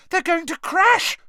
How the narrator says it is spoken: shrieked Hermione

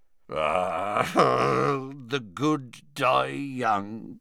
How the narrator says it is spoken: muttered Hagrid, a little cross-eyed

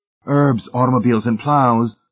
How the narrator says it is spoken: Miss Rice shouted

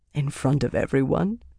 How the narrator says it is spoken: he said, laughing

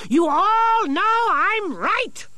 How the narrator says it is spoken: shouted Nicodemus

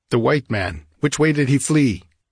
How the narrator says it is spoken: Nilonga shouted something

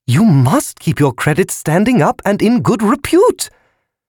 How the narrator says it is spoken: The balloon squealed

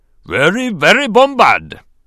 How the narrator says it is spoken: the Gungan chief rumbled

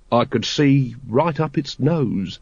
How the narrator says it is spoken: said Captain Vimes dreamily

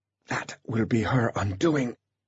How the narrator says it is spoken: gasped Artemis, already suffering under the weight of the flak jacket

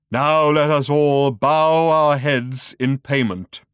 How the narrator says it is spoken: intoned the voice, and then said it again, much faster and backwards

